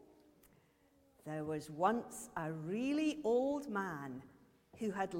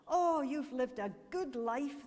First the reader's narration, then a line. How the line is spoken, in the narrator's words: exclaimed